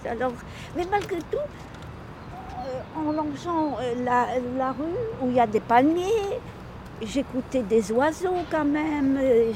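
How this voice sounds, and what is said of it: Speaks with a foreign accent. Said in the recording (French): “Désolée pour mon accent”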